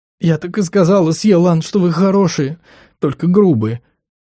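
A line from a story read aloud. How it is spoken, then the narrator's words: Sobbing. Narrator (Russian): всхлипнула она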